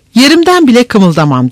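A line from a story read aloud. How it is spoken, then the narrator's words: Shouted. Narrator (Turkish): diye bağırdı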